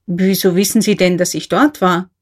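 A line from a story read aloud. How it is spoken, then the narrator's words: Plain question. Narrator (German): fragte K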